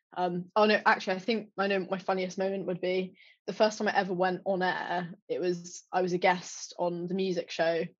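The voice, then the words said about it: Posh English accent. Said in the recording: “oh, you sound great, very posh ... of course I sound posh”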